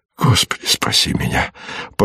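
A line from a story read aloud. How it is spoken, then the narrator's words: Fearful whisper. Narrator (Russian): прошептал он в страхе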